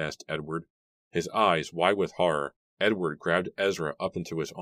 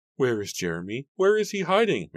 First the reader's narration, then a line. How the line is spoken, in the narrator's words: Mary cried